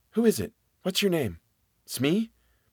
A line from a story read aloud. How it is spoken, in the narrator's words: the whisper came back